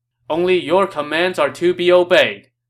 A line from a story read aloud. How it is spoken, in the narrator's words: everyone shouted in response